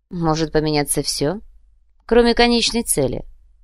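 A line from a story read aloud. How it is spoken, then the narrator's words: Coldly stated. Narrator (Russian): холодно произнес Сантьяго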